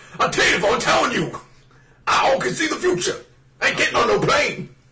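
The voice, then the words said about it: Mr. T impression. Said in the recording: “It was like Mr. T for a moment ... Mr. T impression ... I feel like mine wasn't half bad right there”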